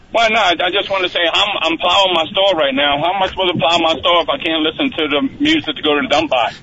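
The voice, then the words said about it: New Orleans accent. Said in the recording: “New Orleans, and I haven't lost my accent either.”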